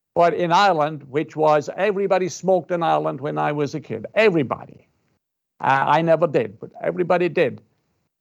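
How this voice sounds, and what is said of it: Irish accent. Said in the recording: “I'm Irish. And I'm from Ireland, you can probably gather... from my accent”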